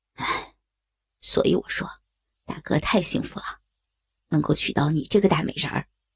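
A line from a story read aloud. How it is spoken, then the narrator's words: Charming sigh. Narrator (Chinese): 梁正南嫣然一叹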